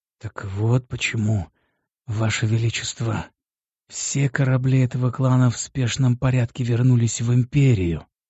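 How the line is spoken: Whisper. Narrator (Russian): прошептал начальник СБ

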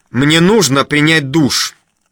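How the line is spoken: Sharp, curt. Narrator (Russian): резко бросает

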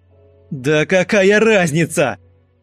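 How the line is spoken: Desperate shout. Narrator (Russian): закричал Антон в отчаянии

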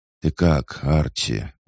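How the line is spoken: Tired question. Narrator (Russian): устало спросила она

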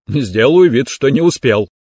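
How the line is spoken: Short chuckle. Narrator (Russian): хохотнул телохранитель

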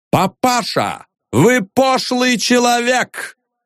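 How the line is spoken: Shouted. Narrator (Russian): прокричал Остап

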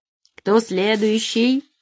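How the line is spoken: Grim pronouncement. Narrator (Russian): мрачно изрек Али

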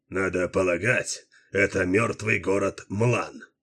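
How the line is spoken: Muffled remark. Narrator (Russian): глухо заметил Дилуло

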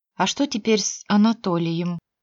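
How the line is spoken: Quiet question. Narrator (Russian): тихо спросила Женя

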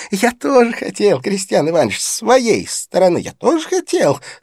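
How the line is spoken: Laughing. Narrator (Russian): смеясь, продолжал господин Галяткин

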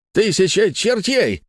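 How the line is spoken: Shouting. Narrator (Russian): кричал дядюшка Антифер

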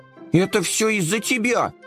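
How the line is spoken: Shouting. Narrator (Russian): закричал Компот

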